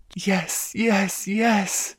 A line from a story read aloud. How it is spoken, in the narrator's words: she moaned